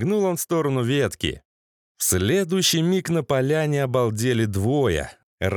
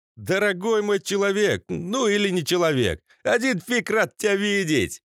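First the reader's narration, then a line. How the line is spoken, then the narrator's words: Exclaiming. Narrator (Russian): он воскликнул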